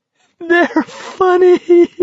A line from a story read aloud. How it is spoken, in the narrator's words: He was nearly weeping with laughter